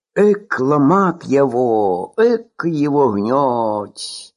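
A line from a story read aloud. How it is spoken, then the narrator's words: Grumbling. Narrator (Russian): проворчала Настасья Ефимовна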